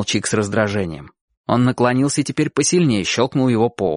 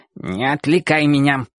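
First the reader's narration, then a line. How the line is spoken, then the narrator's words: Growling puppy. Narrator (Russian): прорычал щенок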